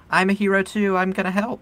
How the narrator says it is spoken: yelling

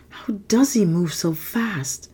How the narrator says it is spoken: Dan murmured to himself

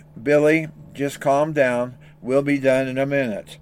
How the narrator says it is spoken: Dad was quietly saying

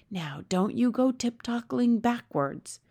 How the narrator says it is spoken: the BFG whispered

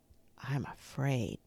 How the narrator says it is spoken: Benny whispered

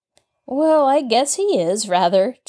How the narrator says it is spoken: chuckled Nancy

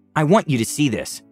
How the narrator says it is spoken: I said

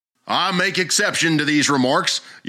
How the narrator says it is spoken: yelled Dagger

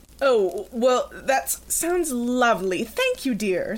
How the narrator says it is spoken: Serena cut through Jackie's stammering

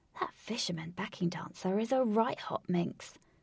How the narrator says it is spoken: whispered

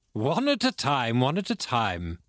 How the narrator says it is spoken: laughed Dr

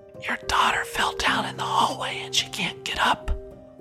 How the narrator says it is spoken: a man next to my ear whispered

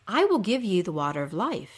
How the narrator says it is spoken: says

